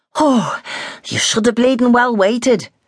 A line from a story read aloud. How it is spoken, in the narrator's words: Bill said breathlessly